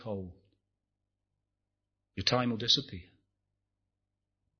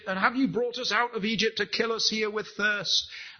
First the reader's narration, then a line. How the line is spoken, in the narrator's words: Moses cried to the Lord